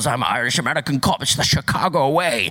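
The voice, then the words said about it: Poor Scottish-accented celebrity impression. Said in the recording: “he sounds exactly the same in every single movie... I'm Sean Connery, because my accent's terrible, just like his accents are terrible”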